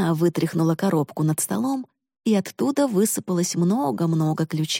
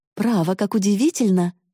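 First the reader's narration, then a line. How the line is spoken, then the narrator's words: Exclaimed. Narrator (Russian): воскликнула она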